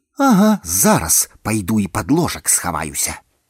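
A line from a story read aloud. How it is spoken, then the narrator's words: Through gritted teeth. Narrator (Belarusian): Скрозь зубы працадзіла загадчыца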